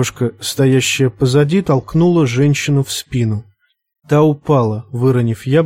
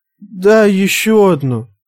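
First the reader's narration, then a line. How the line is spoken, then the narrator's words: Pleading. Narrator (Russian): взмолилась одна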